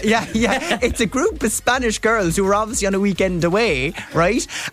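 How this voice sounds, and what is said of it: Irish accent. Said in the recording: “They hear the Irish accent.”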